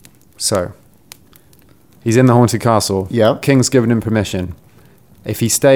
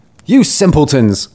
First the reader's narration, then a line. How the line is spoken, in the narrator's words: cried he